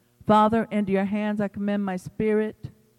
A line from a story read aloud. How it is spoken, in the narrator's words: Jesus cried out with a loud voice